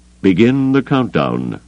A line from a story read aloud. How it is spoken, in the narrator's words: he told Pelion, his voice as calm as if he were ordering dinner